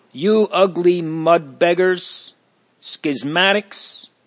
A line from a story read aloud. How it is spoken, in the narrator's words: is bawled at them